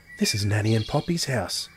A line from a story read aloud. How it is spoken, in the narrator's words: whispered Gillian